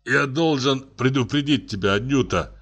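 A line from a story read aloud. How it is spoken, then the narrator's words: Groan. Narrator (Russian): простонал он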